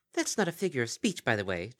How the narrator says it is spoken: chirped Aldervandra

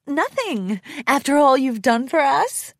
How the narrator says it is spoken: Rarity smiled warmly

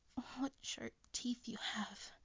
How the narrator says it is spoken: gasped, squirming

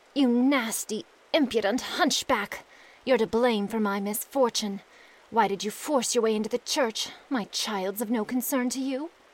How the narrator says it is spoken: the princess groaned and said

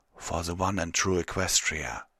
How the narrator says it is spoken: whisper

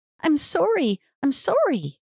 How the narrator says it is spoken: she squealed

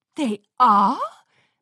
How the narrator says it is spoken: Moonlight Melody gasped, mid-lipstick application

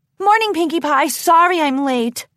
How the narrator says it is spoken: Crown Piece called out

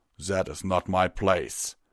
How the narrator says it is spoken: Tirado growled

